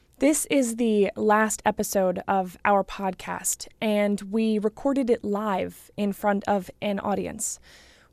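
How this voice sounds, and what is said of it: Voice a little bit off. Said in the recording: “My voice is a little bit off this morning because I did a lot of talking last night”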